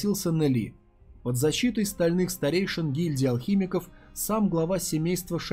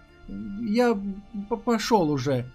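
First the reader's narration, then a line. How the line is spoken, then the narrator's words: Mumbling. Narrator (Russian): промямлил наш герой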